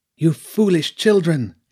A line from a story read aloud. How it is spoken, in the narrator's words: she cried